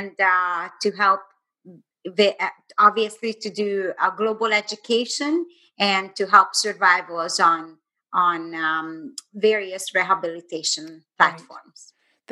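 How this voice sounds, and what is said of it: Hungarian-accented English. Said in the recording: “it's a beautiful accent ... She is from, um, were you born in Budapest?”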